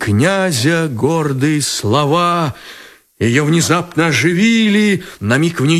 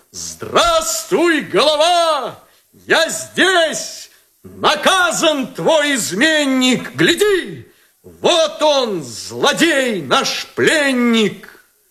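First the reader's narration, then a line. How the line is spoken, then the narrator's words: Shout. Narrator (Russian): Он крикнул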